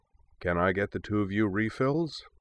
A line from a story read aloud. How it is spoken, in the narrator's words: asked with a kindly smile